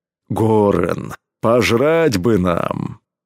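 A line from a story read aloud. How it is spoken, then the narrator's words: Deep bass, big man. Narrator (Russian): пробасил громила Кром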